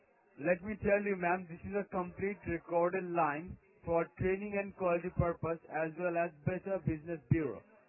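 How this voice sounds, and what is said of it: Non-Australian accent. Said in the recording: “you don't sound like an Australian ... my accent”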